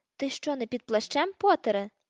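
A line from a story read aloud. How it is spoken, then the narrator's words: Shouting. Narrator (Ukrainian): закричав смертежер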